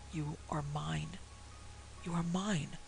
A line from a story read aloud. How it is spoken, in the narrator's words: someone with whom he could not see whispering in his ear